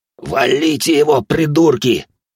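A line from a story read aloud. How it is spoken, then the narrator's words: Hoarse rasp. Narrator (Russian): прохрипел Антон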